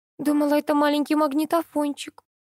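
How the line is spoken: Whimpering. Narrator (Russian): захныкала тётка

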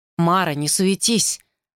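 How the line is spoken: Mutter. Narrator (Russian): пробормотал он

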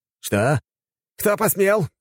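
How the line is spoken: Hysterical yell. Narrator (Russian): Моментально срываясь в истерику, завопил Фанеров

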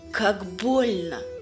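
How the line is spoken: Sobbing. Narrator (Russian): рыдает Снежана

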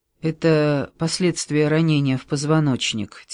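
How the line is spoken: Quiet. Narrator (Russian): тихо сказал Вере Мартин

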